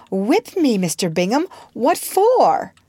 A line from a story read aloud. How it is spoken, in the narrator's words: with surprise exclaimed